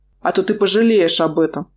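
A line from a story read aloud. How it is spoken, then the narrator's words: Growled reply. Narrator (Russian): прорычал в ответ мой мужчина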